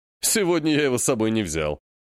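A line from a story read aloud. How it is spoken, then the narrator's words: Man laughing. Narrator (Russian): засмеялся мужчина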